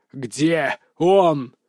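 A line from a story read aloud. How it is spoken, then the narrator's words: Thunderous growl. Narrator (Russian): зарычал, и мой голос прозвучал так громко, что стены помещения, казалось, задрожали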